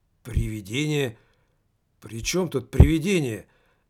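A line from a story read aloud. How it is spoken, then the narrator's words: Confused question. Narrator (Russian): растерянно спросил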